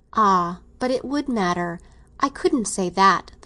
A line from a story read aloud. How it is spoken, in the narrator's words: the girl exclaimed